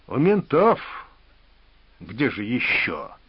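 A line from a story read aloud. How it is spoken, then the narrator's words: Hissed through teeth. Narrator (Russian): Сквозь зубы процедил расписной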